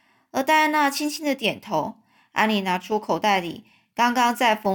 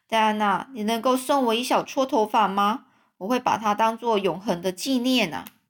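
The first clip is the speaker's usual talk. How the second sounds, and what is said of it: Trembling, shaky voice. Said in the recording (Chinese): “安妮用颤抖的声音说”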